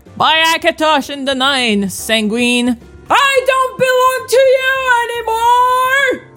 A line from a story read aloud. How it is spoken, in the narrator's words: The Emperor shouted into the air